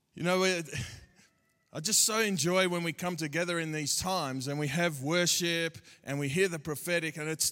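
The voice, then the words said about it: Australian accent. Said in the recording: “to you, I do sound funny ... you're going to have to hear God through my Aussie accent”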